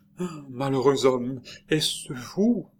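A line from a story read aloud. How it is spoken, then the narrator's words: Stammering. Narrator (French): balbutia-t-elle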